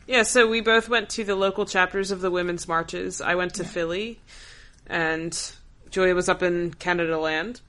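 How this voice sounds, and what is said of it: Voice an octave lower than usual. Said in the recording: “my voice is, like, an octave lower, and my voice is already freaking low”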